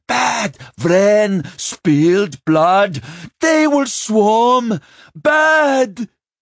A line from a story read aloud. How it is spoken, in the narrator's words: she gasped in a great breath and bellowed